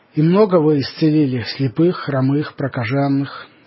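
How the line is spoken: Plain question. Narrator (Russian): спросил его Коптин

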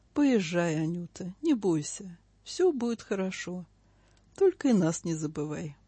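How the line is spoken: Gentle, fatherly. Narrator (Russian): сказал ласково, по-отечески

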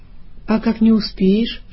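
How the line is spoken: Whispering inner voice. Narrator (Russian): шепнул ему какой-то внутренний голос

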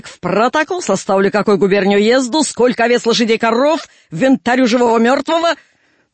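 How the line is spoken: Gruff barking into beard. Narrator (Russian): мутный в бородку фукнул, гаркнул, как становой покойник

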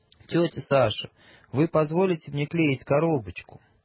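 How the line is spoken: Polite question. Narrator (Russian): Лиля спросила вежливым голосом

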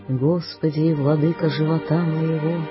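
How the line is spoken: Sighing voice. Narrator (Russian): начинает воздыхающим голосом

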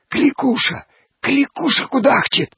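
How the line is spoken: Women whispering. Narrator (Russian): зашептали бабы

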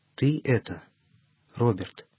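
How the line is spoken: Faint, sickly voice. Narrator (Russian): чуть слышным голосом спросил больной

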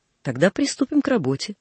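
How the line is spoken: Plain. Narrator (Russian): сказал инженер

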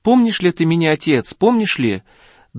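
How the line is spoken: Joyful question. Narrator (Russian): очень радостно и спросил

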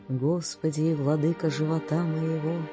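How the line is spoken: Sighing voice. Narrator (Russian): начинает воздыхающим голосом

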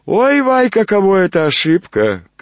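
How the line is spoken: Cheerful shout. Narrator (Russian): крикнул жид весело

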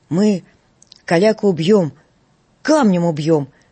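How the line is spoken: Shout. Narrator (Russian): крикнул Галчонок

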